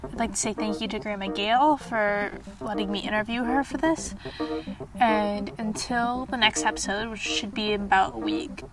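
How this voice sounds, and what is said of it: Deeper than usual, sick-sounding voice. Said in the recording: “my voice sounds a little bit deeper than usual, and the day I recorded this I was sick”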